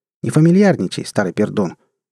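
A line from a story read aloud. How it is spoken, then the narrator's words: Sharp but not rude. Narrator (Russian): Резко, но не грубо, отрезала Алиса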